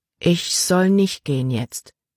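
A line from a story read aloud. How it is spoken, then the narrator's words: Plain. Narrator (German): sagte sie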